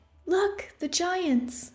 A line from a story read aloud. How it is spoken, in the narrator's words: Opal cried